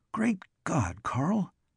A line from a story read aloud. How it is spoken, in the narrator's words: he gasped